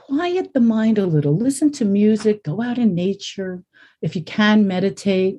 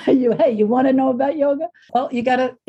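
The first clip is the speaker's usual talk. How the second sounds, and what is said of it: Put-on Brooklyn accent. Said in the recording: “I put a little Brooklyn accent to it”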